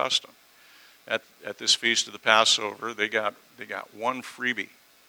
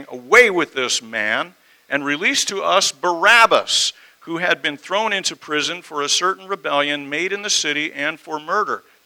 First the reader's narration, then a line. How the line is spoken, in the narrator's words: they all cried out at once, saying